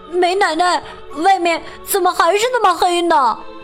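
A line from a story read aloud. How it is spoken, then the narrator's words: Calling out. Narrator (Chinese): 乔喊道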